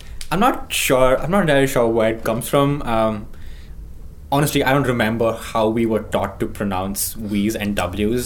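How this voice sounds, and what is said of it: Accent blending V and W sounds. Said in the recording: “your accent is the... a thing that I typically associate with German, which is the kind of... superpositioning of V's and W's, like the V sound and the W sound”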